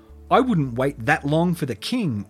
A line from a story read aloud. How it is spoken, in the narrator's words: Weaver snapped